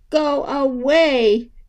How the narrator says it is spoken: Dora wailed

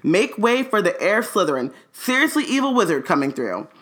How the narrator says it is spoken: shouting

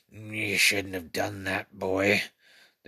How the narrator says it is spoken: the creature growled

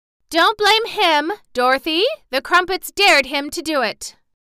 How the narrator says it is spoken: Bellina, who had flown to the top of a cracker house to be in a safe place, called out

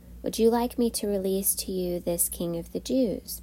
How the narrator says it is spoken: Pilate asked

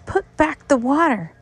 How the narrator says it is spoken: they shouted

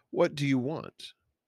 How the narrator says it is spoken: asked

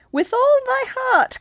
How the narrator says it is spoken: cried the old witch, laughing loudly

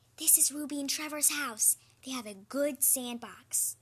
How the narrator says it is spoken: Bean whispered

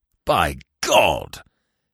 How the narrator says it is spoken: came in a mighty roar from Weymouth

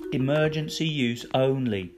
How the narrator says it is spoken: said sternly

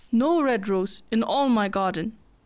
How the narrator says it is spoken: cried, and his beautiful eyes filled with tears

